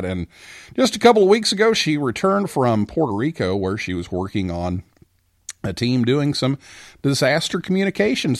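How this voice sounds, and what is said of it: Polished radio announcer voice. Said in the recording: “You've got that great radio voice.”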